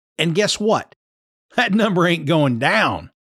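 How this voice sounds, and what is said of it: Kentucky accent. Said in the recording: “slipped into my no-shit Sherlock mode and Kentucky accent”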